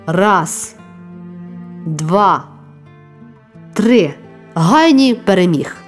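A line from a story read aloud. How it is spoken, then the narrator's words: Loud slow counting. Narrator (Ukrainian): Комуніст Шауер голосно і повільно рахував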